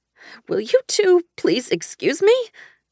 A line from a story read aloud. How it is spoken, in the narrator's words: I squeaked